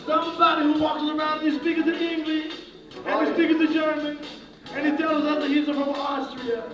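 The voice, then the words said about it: Strange put-on Israeli accent. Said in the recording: “You have a very strange Israeli accent.”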